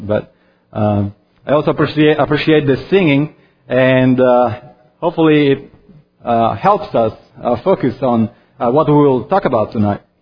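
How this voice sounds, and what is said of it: Strong accent. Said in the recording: “due to my strong accent”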